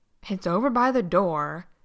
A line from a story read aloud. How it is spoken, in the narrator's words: Dean snapped